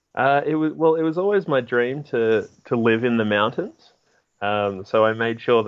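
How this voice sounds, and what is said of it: Australian accent. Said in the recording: “is Australian. I'm sure ... is Australian from his accent”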